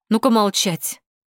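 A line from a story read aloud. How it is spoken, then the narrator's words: Sharp rebuke. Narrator (Russian): прикрикнула на него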